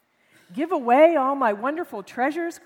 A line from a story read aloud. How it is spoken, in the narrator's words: cried the king